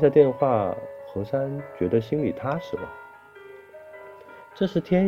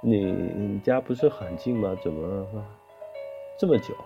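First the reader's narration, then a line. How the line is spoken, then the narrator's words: Plain. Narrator (Chinese): 小文说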